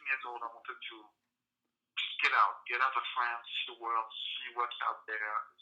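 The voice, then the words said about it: French accent. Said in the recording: “my accent uh, at best, uh, I'm born French, ... my accent I guess will never leave me.”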